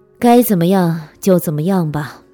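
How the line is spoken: Calm, detached. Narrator (Chinese): 当得知梅山偷情时，这个男人表现得异常冷静，只淡淡的说

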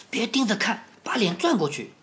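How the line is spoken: Whispering in ear. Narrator (Chinese): 特鲁弗汉特在卡斯宾耳边轻声地说

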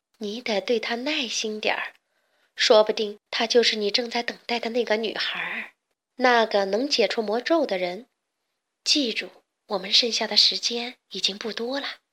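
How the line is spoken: Sighing. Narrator (Chinese): 茶包太太叹了口气说

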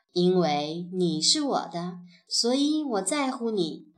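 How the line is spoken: Slow and gentle. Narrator (Chinese): 伊莱 缓缓地说

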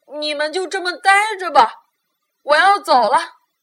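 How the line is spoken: Loud. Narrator (Chinese): 他大声说

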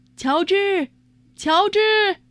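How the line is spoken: Sudden call. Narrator (Chinese): 突然，有人叫他

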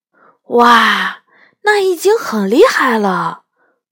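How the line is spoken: Admiring exclamation. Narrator (Chinese): 我赞叹道

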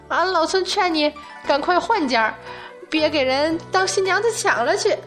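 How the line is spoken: Wild laughter. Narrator (Chinese): 一边狂笑一边道

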